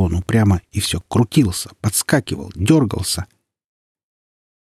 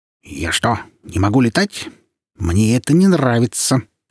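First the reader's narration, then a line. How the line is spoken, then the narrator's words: Angry grumble. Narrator (Russian): сердито пробурчал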